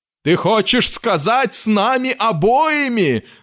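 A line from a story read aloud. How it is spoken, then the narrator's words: Yelling. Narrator (Russian): завопил мистер Грег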